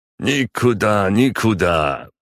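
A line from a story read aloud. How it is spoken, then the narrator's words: Tipsy little voice. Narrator (Russian): пьяненьким голоском ответил ей мой спутник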